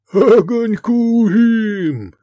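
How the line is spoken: Loud laughter. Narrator (Russian): захохотал Гефестай

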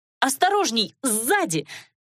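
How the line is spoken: Shouted warning. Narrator (Russian): крикнула

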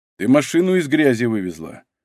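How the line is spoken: Sigh. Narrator (Russian): вздохнул Егор

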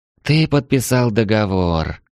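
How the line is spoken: Wife sighing. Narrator (Russian): вздохнула супруга

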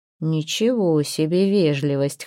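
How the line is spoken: Scoffing snort. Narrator (Russian): хмыкнул Торвард

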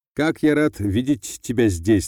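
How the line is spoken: Mocking. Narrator (Russian): насмешливо сказала фигура

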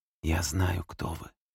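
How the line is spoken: Quiet. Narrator (Russian): тихо сказал Дэвид

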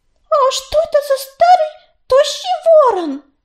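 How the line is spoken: Loud kitten squeak. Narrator (Russian): громко пропищал какой-то горный котенок

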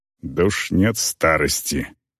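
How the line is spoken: Grumbling female orc. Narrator (Russian): буркнула орка

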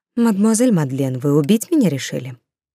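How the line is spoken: Soft, well-mannered. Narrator (Russian): Роза мягко, благовоспитанно произнесла

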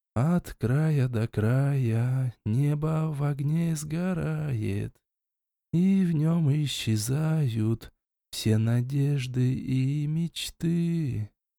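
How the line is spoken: Soft singing. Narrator (Russian): я принялся тихонько напевать

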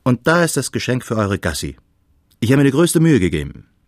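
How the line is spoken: Cheerful call. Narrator (German): rief Freund Adrian aufgeräumt

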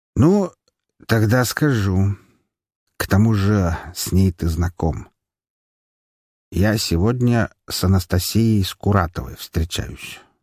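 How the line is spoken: Calm. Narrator (Russian): спокойно пояснил он

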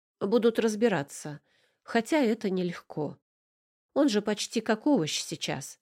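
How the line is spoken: Plain. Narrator (Russian): сказала адвокат

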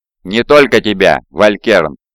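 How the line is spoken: Cold reply. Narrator (Russian): холодно ответил Омегон

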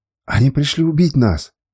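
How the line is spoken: Frightened exclamation. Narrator (Russian): испуганно воскликнул

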